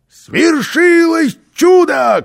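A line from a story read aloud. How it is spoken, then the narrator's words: Shout. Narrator (Russian): крикнул он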